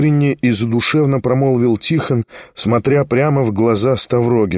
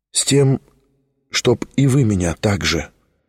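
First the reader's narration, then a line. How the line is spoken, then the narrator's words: Heartfelt voice. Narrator (Russian): проникнутым голосом промолвил Тихон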